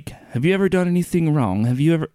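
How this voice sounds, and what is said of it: Put-on New Zealand accent. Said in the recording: “This is my flawless New Zealand accent.”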